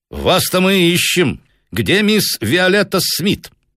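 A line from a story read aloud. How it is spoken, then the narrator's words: Direct, calm question. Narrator (Russian): прямо и спокойно спросил он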